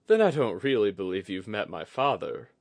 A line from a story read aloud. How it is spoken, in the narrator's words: Oguri chuckled